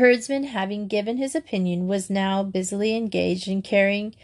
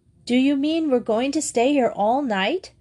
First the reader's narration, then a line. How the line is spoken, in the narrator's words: gasped Grizel